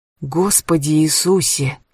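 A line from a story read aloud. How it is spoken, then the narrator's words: Quiet, trembling voice. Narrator (Russian): тихо произнесла Кэтрин дрожащим голосом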